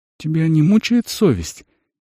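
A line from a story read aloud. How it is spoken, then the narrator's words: Uncertain question. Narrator (Russian): неуверенно спросил Рисан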